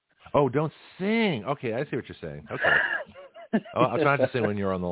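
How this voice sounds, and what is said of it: Usual voice. Nothing is said of it.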